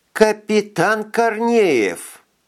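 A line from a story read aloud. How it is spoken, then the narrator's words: Hard, hissing lisp. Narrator (Russian): Голос Элеоноры стал жестким, и забавная шепелявость, появившаяся у нее вместе с трещиной в зубе, зазвучала змеиным шипением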